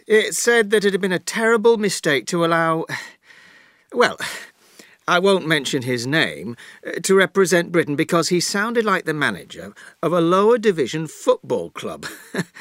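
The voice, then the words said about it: Yorkshire English accent. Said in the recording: “his beautiful Yorkshire accent”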